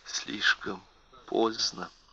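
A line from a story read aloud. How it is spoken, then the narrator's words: Whispered. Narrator (Russian): прошептала она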